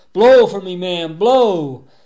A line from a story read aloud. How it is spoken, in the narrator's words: screaming